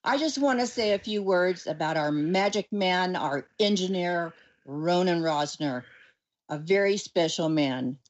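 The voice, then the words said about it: Polished radio announcer voice. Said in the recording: “in my finest radio voice”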